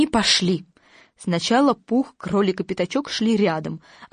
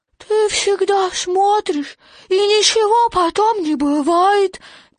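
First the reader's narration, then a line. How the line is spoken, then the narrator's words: Sad child. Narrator (Russian): печально сказал крошка Ру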